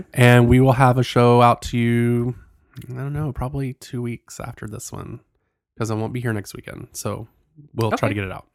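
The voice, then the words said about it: Congested, sick-sounding voice. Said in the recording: “my voice is different. It's because I'm trying to get over a cold. So, you know, I sound real sexy.”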